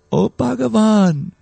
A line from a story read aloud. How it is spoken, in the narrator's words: they must have said very sweetly